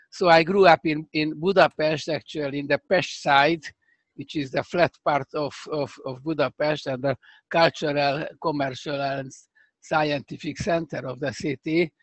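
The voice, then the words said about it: Hungarian accent. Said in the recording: “I have a terrible Hungarian accent ... still this accent that you cannot lose”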